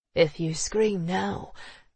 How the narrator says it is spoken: he murmured

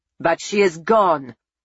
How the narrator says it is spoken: Monsignor Luciano shouted

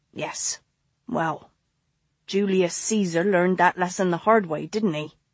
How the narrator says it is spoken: Tabby murmured

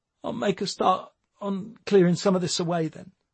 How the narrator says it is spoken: he mumbled

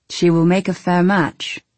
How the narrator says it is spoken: he said

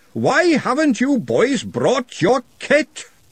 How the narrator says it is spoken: he roared

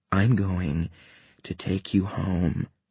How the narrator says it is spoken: I said again, my voice dry

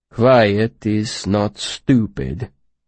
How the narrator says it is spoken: he said, his voice flat

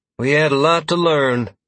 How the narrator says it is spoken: Freya replied dryly

